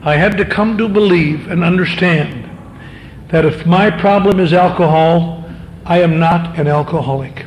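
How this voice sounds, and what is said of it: Slow, deliberate speech. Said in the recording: “kind of say it slowly”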